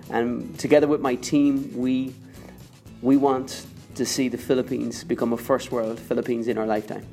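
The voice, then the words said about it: Irish accent. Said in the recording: “Maybe you guessed from my accent, I am not born in the Philippines. I am Irish”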